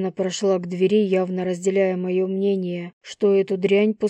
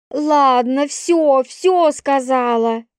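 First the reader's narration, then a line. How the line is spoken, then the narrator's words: Barked. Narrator (Russian): рявкнула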